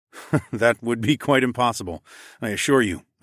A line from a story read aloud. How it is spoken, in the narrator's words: I chuckled